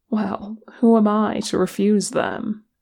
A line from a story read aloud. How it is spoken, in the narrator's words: Gimli chuckled tiredly